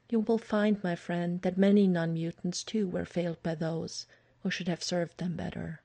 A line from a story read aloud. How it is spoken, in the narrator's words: Aurora had been quietly thoughtful when he told her, and only said later